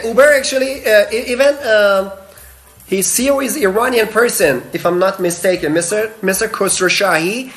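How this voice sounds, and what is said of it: Non-native English accent. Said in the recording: “Sorry about my accent”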